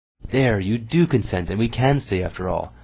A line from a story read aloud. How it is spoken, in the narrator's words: exclaimed Sonetchka, jumping for joy